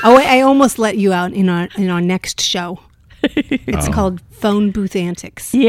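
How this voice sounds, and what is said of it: Usual voice. Nothing is said of it.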